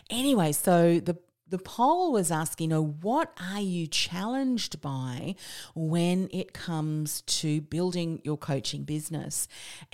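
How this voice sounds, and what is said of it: New Zealand-Australian accent. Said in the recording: “I'm a Kiwi Aussie, so if you're not understanding my accent”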